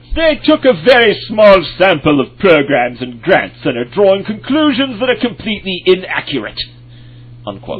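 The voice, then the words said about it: Put-on British accent. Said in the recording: “Who is this guy with the British accent?”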